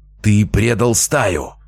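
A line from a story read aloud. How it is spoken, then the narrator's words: Rook's growl mid-fight. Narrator (Russian): прорычал грач в промежутке между обменом ударами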